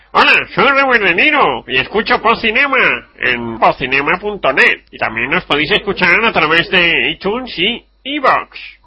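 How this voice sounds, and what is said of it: Imitates another person's voice. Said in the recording (Spanish): “imitación de Robert De Niro... hacemos las voces”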